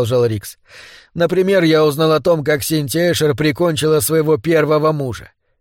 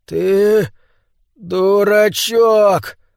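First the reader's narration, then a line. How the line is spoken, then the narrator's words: Breathed out. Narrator (Russian): выдохнул Олен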